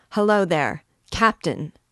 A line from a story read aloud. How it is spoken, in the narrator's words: shouting